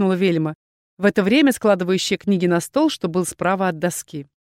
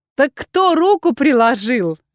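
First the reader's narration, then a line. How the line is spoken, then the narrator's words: Laughing. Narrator (Russian): рассмеялась Дендра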